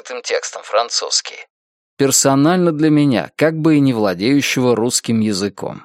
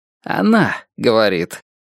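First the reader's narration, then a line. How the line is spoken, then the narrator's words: Husky correcting voice. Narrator (Russian): поправляет он меня хрипловатым голосом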